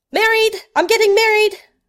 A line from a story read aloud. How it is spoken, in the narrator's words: Sherlock cried out